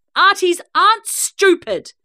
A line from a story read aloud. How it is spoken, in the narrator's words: shouted